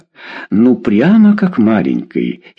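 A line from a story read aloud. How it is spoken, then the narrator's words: Giggling. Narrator (Russian): хихикнула она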